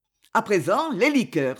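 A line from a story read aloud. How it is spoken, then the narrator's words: Exclaimed. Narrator (French): s'écria M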